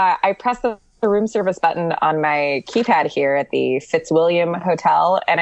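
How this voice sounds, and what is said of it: Usual voice. Nothing is said of it.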